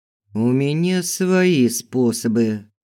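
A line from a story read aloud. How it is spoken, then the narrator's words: Muttered through clenched teeth. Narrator (Russian): процедил сквозь зубы Филберт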